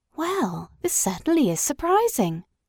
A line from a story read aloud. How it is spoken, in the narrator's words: exclaimed the Candy Rabbit